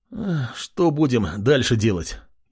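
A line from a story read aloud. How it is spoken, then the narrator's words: Exhausted young man asking. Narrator (Russian): измученным голосом спросил принц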